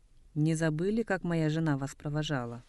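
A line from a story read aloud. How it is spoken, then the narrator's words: Affectionate. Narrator (Russian): Нема ласково сказал Сысыгме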